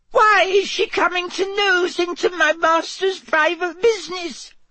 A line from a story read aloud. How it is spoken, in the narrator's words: sobbed Winky